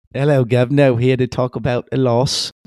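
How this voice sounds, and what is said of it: Attempted London accent. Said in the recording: “London reference ... That's my best. I feel like if I just did a London impersonation, it would turn into an Australian impersonation or accent.”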